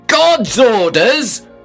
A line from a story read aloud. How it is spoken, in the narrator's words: I shouted, furious